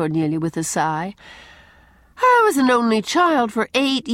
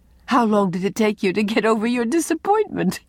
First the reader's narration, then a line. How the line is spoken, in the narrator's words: asked Anne, amid her laughter